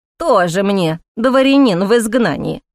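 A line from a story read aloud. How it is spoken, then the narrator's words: Snorting. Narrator (Russian): фыркнула Стариков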